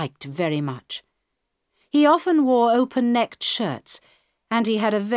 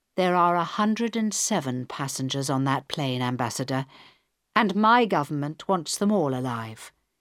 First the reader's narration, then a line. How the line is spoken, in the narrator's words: Helen answered quietly